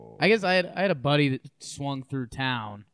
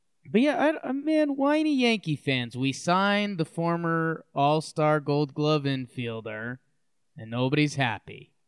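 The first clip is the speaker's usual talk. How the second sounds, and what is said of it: Sarcastic tone. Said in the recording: “being sarcastic.”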